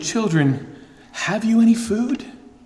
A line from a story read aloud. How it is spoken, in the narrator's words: Jesus asks the question tenderly